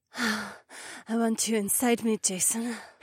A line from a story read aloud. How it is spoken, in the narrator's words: Hae-won breathed